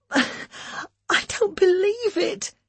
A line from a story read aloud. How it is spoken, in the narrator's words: she sobbed